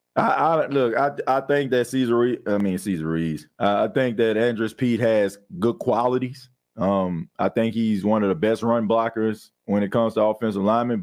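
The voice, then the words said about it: Hoarse, worn-out voice. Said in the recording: “My voice is a little bit shot a little bit”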